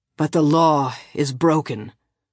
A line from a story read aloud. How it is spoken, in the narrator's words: Agat said, his hoarsened voice cutting across the murmur of hope and jubilation